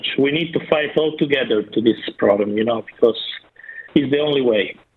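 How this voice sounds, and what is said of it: Non-native English accent. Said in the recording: “Do not be lulled into that accent.”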